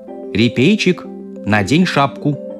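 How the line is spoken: Stern mother. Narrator (Russian): строго сказала мама

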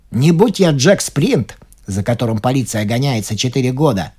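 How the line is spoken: Exclaiming footman. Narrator (Russian): воскликнул третий лакей

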